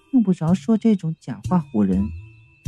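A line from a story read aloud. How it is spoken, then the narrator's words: Soft. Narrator (Chinese): 云美轻声的道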